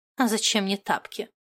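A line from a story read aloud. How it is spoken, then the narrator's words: Grumble. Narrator (Russian): проворчала Моти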